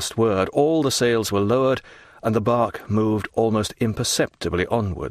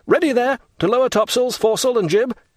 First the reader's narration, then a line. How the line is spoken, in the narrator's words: the young man shouted out